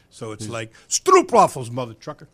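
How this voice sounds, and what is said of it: Put-on New York-Scandinavian accent. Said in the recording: “It's got a little New York attitude and a little a Scandinavian accent.”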